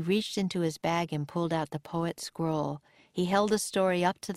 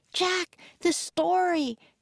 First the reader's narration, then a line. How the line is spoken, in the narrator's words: cried Annie